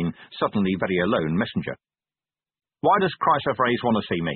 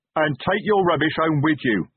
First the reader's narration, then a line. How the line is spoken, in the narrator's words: Detritus roared